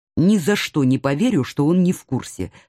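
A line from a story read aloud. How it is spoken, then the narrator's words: Plain. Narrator (Russian): сказал Алекс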